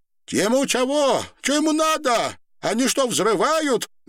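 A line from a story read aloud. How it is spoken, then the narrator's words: Loud old woman asking. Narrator (Russian): громко спрашивала старуха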